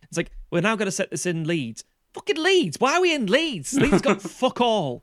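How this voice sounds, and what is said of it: Put-on Leeds accent. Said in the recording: “you're doing the Leeds accent as well.”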